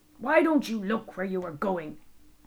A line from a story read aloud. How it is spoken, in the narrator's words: the man snarled